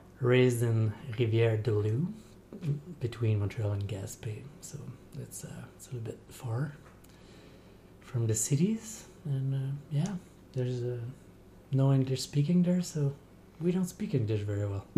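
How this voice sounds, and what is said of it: French accent. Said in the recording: “that's my French accent”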